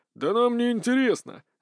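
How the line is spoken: Laughing. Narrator (Russian): рассмеялся Ригард

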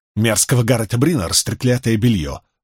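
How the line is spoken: Snapping retort. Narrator (Russian): огрызнулась та

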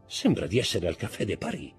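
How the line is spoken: Murmured. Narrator (Italian): mormorò Danglars

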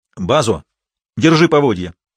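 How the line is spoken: Impatient shout. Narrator (Russian): нетерпеливо крикнул Ральф

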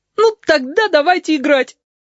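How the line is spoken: Loud tearful demand. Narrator (Russian): потребовал Филипп громко и со слезинкой

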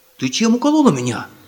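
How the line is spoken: Indignant question. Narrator (Russian): возмущенно спросил Ульрих

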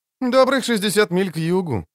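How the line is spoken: Carefree cheerful voice. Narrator (Russian): оценил Лютик довольно беспечным и даже веселым голосом

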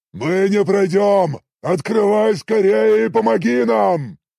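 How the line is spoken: Shouted. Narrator (Russian): прокричал Орочи

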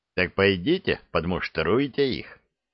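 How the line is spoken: Sarcastic. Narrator (Russian): язвительно посоветовал

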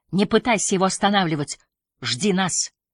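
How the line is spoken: Order into microphone. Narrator (Russian): Шофер повторил приказ в микрофон

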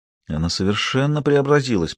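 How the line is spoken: Whisper. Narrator (Russian): прошептал Гектор

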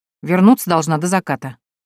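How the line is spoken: Grumbling. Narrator (Russian): буркнула она

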